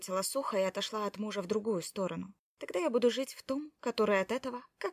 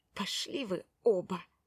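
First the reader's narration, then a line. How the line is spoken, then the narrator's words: Hissed. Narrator (Russian): прошипела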